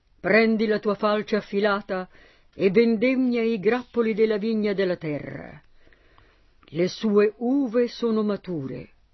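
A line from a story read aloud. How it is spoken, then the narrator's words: Thundering angelic voice. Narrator (Italian): Un altro angelo con voce tonante disse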